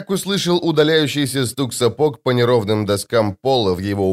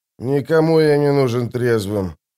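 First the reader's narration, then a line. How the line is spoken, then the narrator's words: Grumbled. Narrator (Russian): пробурчал Остряк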